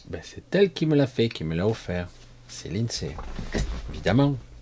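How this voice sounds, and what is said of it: Slight southern French accent. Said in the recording (French): “j'ai un petit peu cet accent aussi ... Il y a des restes du Sud, moi”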